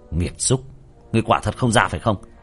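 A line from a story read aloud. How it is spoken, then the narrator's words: Shrill shout. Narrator (Vietnamese): Tiểu Thất lại quát lên chói tai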